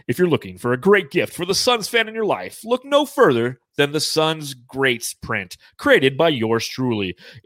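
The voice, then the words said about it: Announcer-style radio voice. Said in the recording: “I'm going to put my radio voice on.”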